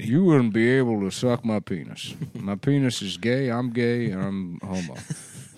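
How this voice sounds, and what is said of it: Imitates another person's voice. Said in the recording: “impression ... That's a good impression.”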